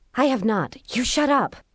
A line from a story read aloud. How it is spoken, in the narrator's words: whispered back